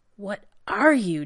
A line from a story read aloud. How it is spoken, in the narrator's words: John gasped